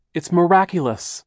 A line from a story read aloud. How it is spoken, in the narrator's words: cried